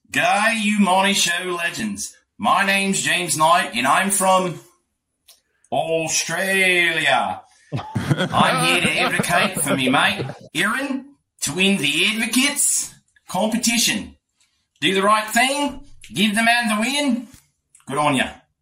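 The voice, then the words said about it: Convincing put-on Australian accent. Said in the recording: “the accent is spot on, dude. Absolutely. ... Positively spot on.”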